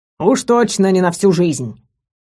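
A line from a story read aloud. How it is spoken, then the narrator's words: Growled. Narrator (Russian): рыкнул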